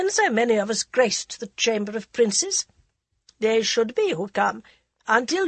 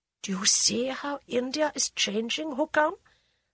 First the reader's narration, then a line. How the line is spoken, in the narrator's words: Sir Akbar whispered